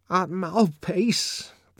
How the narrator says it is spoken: the savage was incoherently mumbling

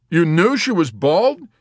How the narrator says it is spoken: exclaimed in wonder

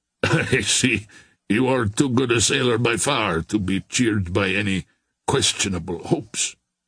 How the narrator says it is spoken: laughed Terrier

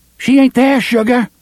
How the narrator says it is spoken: Susanna shouts at him

